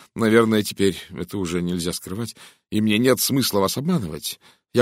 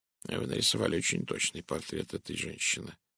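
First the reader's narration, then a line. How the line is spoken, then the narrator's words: Mutter. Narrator (Russian): пробормотал Пуаро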